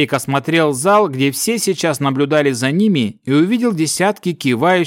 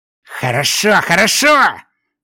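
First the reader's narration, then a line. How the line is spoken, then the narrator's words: Angry, unrestrained outburst. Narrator (Russian): гневно выкрикнул, совсем позабыв о манерах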